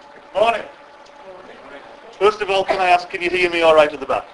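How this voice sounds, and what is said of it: West Cumbrian English accent. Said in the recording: “are you okay with my accent? ... I'm from West Cumbria, so that's where the accent is.”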